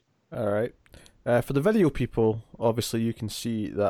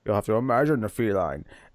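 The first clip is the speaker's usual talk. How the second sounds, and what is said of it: Bane character voice. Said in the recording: “Do that in my Bane voice.”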